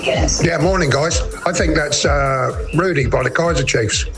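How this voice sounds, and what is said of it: Strong regional accent. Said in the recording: “I love your accent. It's unbelievable.”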